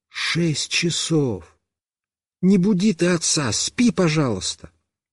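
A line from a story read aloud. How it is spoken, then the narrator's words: Whispered by mother. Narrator (Russian): мама прошептала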